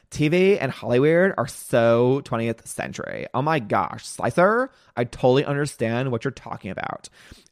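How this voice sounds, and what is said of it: Valley Girl accent. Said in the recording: “my best Valley Girl impression”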